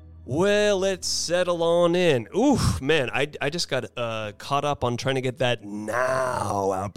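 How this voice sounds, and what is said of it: Worn-out, strained voice. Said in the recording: “my voice is just a little shot today”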